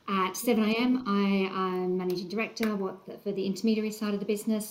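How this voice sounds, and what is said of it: Australian accent. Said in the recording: “you can probably tell from the accent, um, was in the Australian um, financial services”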